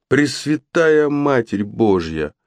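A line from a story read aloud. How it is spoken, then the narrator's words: Dull moan. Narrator (Russian): Брат Генриха глухо застонал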